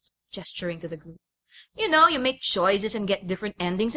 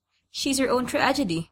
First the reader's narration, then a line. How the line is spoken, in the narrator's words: Marge giggled